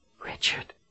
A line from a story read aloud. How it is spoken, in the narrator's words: Colin whispered